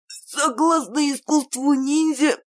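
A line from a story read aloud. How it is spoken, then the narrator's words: Hoarse wheeze. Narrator (Russian): просипел Кирилл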